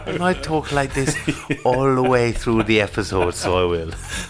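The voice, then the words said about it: Soft, slow put-on accent. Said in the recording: “talks in a really soft accent like that ... in a very slow, nice accent ... I was quite impressed with my accent then”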